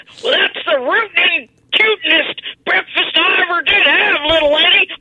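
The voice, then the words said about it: Yosemite Sam impression. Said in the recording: “Yosemite Sam ... shooting and rooting and tooting ... doing a hell of an impression”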